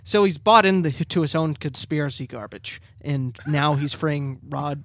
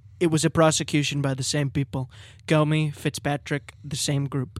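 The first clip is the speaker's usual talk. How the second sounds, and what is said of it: Impression of Donald Trump. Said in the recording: “Trump said, it's a prosecution. I'll do my impression.”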